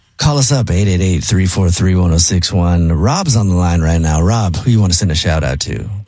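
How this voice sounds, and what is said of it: Sexy smooth radio DJ voice. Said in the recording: “Jubal's sexy DJ voice ... It's pretty good”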